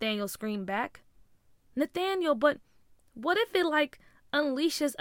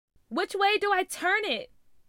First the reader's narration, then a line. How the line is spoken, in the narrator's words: Peach yelled